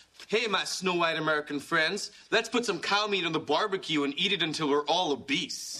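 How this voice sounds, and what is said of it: Bad put-on American accent. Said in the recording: “your American accent is terrible. ... I think I'm talking in an American accent, but it really sounds like I'm wearing a set of giant dentures.”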